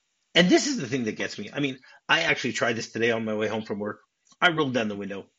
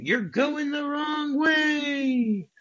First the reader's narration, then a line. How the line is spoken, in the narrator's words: the couple says they scream